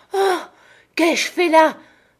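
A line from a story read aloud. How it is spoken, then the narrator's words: Man's exclamation. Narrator (French): s'écria-t-il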